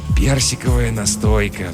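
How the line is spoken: Sigh. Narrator (Russian): вздохнул Жихарь

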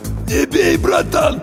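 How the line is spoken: Hoarse, pleading. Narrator (Russian): прохрипел боец

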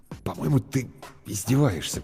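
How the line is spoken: Uncertain muttering. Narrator (Russian): пробормотал Бергман неуверенно

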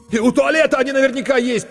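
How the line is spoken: Nearly shouting. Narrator (Russian): почти закричал Коля Корноухов

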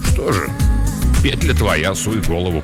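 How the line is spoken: Gruff mutter. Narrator (Russian): буркнул он

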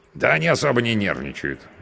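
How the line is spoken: Snorting. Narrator (Russian): хмыкнул мой спутник

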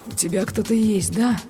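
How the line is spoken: Dull, muffled question. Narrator (Russian): глухо спросил он

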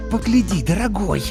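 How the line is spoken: Upset hiss. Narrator (Russian): расстроенно прошипела родительница

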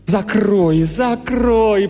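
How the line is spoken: Moaned. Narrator (Russian): простонал Бейли

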